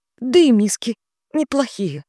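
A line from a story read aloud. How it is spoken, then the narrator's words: Sobbing. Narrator (Russian): добавила Милли со всхлипом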